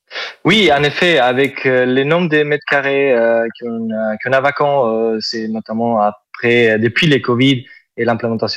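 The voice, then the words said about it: Southern French accent. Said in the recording (French): “Vous avez un superbe accent ... C'est l'accent du sud ... c'est joli”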